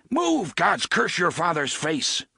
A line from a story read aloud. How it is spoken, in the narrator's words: Roland roared